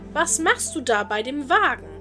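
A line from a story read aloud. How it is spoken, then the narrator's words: Calling out. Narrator (German): Sie glaubte, sie wolle sie stehlen, indem sie rief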